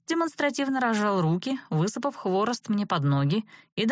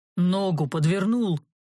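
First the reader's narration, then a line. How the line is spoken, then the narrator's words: Gloomy deep bass. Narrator (Russian): мрачно пробасил страдалец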